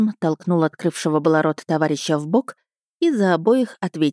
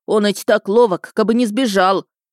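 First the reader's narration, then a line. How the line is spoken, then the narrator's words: Restrained commanding tone. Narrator (Russian): Фома Самсонович с трудом сдержался, чтобы не рявкнуть начальственно, но вместо этого распорядился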